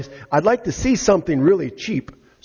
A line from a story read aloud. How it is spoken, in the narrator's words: whined